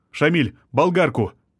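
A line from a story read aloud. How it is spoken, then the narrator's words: Urgent shout. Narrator (Russian): крикнул адвокат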